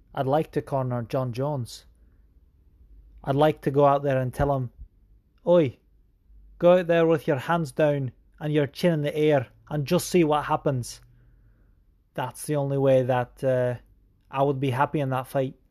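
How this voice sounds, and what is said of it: Badly put-on accent. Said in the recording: “So terrible, my dialect.”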